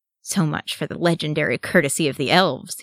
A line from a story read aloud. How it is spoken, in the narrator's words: he grumbled